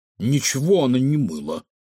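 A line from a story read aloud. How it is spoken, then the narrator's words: Snorting. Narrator (Russian): фыркнул Кефир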